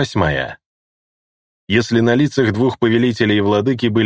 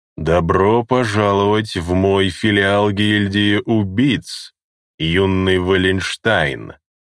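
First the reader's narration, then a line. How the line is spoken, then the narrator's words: Drawling voice. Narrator (Russian): Каким-то тягучим голосом заговорил бессмертный маг в козлиной маске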